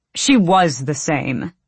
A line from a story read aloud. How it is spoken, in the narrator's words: Argan snapped